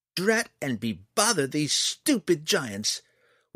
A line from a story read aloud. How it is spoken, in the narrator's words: was all that Fret replied, fists clenched angrily